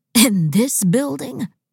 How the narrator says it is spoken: Benjamin said with a laugh, and for once the laugh was neither fake nor forced

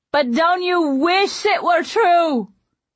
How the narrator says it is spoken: He cried back

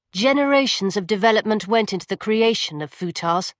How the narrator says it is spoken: Lucilla said

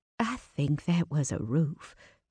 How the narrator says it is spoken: Vivian said softly

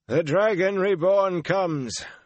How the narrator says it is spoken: intoned a white-haired man

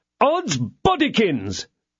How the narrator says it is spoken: cried Porthos

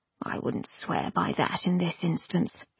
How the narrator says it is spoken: he murmured

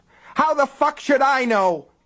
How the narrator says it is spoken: Peyton screamed

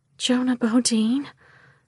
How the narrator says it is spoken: I whispered back

